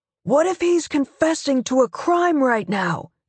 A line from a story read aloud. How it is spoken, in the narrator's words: Alex yells